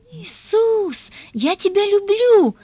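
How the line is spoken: Joyful child shouting. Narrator (Russian): радостно кричал Дениска

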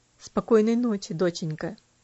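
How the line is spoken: Quiet, tender. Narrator (Russian): тихо сказал

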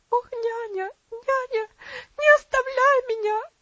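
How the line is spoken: Girl crying out, sobbing. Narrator (Russian): закричала девочка, в конвульсивных рыданиях

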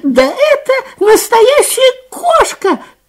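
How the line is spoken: Frightened squeak, little mouse. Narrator (Russian): пискнул испуганный мышонок

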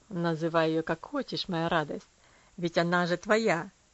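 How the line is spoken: Laughing. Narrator (Russian): рассмеялся он над вопросом

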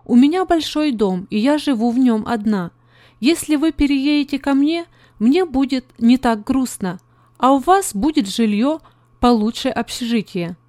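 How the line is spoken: Plain. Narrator (Russian): сказала

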